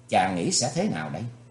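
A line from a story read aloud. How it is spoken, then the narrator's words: Smiling question. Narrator (Vietnamese): Thì Khuê Khuê nàng chỉ mỉm cười hỏi lại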